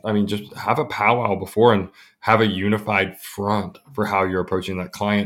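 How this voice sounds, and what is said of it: Hoarse, strained voice. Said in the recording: “losing my voice for a second”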